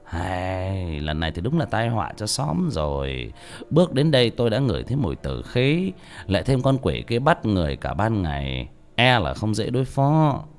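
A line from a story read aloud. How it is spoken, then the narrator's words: Sighing. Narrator (Vietnamese): ông thầy thở dài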